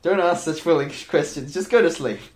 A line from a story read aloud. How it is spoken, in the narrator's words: Gesan answered loudly